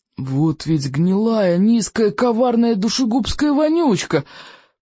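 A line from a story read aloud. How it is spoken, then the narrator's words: Through gritted teeth. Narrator (Russian): процедил стоик сквозь стиснутые зубы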